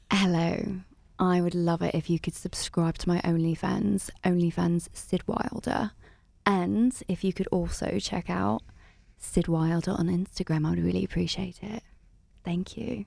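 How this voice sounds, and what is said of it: Put-on British accent, sultry voice. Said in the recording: “your best British accent phone sex voice”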